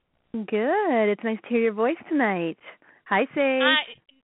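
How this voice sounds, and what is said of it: Sultry, sexy female voice. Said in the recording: “you have a really sexy voice ... she's sultry and she's sexy, and see, her voice says it all”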